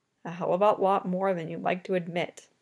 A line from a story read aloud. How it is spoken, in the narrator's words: he muttered under his breath